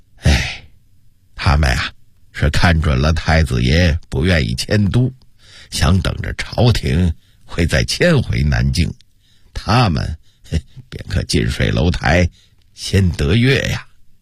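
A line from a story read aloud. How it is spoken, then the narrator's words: With a slight sigh. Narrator (Chinese): 杨士奇微微地叹了口气说道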